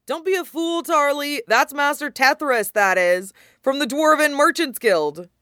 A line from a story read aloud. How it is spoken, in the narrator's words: Someone shouted